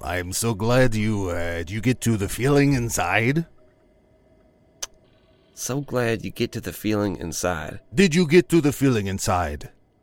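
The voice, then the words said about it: Strong Ozarks regional accent. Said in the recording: “the accent is throwing me up a little bit... I am from the Ozarks”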